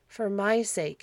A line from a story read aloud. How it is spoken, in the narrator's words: pleaded, the tears filled her eyes